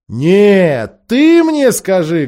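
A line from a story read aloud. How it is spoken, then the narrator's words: Loud interruption. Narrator (Russian): громко перебила ее Лазарелина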